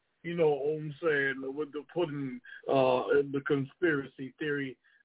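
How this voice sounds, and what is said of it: Bill Cosby impression. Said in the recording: “In my Bill Cosby voice.”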